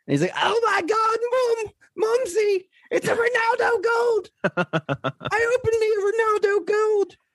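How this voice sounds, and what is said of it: Imitates another person's voice. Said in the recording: “might be my favorite trail impression”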